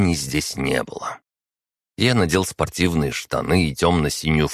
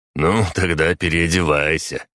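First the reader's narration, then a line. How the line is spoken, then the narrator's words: Snort. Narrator (Russian): хмыкнул Тихон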